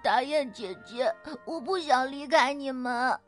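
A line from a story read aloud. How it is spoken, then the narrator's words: Crying. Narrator (Chinese): 哭着说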